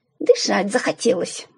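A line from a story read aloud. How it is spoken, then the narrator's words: Young woman grumbling. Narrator (Russian): буркнула девушка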